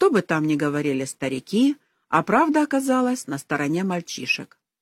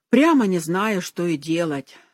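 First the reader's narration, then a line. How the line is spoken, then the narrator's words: Heavy sigh. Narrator (Russian): сказал он и тяжело вздохнул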